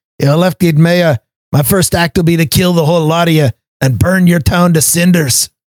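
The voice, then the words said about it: Very bad put-on Scottish accent. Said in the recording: “that was a very, very bad Scottish accent doing a quote from Willie the groundskeeper in The Simpsons”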